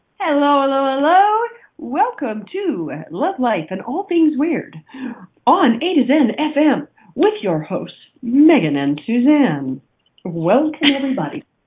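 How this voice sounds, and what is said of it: Polished radio announcer voice. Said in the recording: “That's your official radio voice.”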